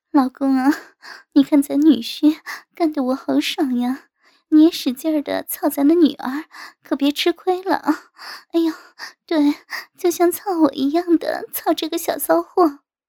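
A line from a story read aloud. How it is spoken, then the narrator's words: Breathy moaning. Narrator (Chinese): 我妈娇喘道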